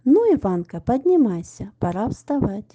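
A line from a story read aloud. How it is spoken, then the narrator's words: Cheerful. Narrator (Russian): Дедушка весело сказал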